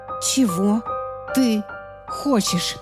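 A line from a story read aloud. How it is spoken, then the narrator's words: Hissing into phone. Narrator (Russian): прошипела я в трубку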